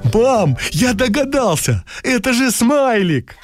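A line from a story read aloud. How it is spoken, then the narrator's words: Joyful exclamation. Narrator (Russian): Кирюша радостно воскликнул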